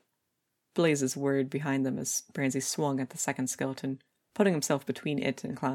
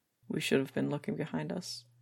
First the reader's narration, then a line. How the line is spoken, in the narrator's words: Clown mumbled, voice low and flat